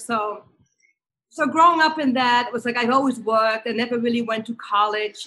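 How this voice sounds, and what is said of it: Dutch-accented English. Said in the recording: “Hence that accent, it's still sticking with you.”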